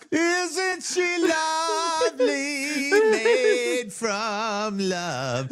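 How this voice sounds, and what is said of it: Sung imitation of a famous singer. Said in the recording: “my Stevie Wonder impression.”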